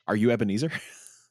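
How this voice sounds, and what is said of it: Imitates another person's voice. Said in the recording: “my Michael Caine impression as Scrooge ... 10 out of 10.”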